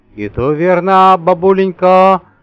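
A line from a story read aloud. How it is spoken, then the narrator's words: Meaningful low boom. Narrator (Russian): значимо прогудел Митя, сдвигая брови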